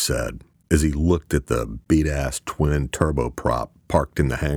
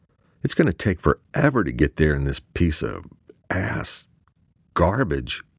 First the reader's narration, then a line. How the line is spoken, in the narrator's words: Luke said, stuttering, finding himself at a loss for words for the first time